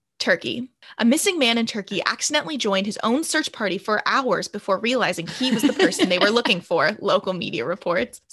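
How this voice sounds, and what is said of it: Imitated newscaster reading voice. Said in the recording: “I can use my newscaster voice. ... Okay, it's not that good. I could do it more if I had practiced”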